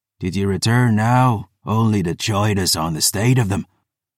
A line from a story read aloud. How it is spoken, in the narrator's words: Phoebe raising her voice to be heard